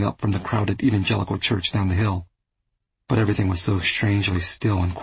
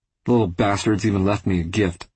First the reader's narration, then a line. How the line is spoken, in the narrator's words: he chuckled